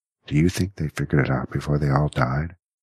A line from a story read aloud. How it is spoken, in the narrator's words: Jackie sighed a deep, rumbling breath